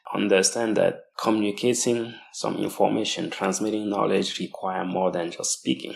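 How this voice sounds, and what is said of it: Non-native accent. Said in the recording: “due to my cultural background and my accent”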